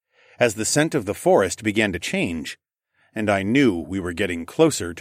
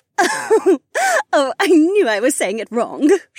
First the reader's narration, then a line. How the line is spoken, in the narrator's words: she giggled again, and the enchanting sound was so entrancing